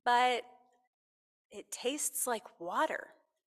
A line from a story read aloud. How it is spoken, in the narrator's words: said hesitantly